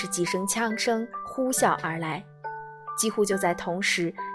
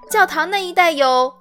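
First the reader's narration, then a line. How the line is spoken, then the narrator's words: Boy shouting. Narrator (Chinese): 少年朝那一侧探出了前胸，喊道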